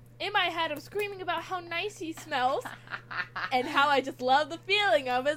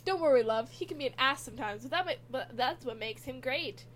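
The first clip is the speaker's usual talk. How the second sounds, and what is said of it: Put-on Irish accent. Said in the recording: “An Irish accent tells me in my head.”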